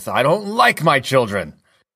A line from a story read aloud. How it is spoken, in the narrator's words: Henry immediately snaps back with